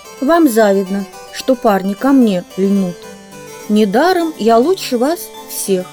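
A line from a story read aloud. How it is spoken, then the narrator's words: Giggling, singsong. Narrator (Russian): Она хихикала и напевала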